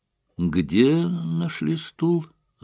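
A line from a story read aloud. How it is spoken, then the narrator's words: Thoughtful question. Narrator (Russian): задумчиво переспросил Эллери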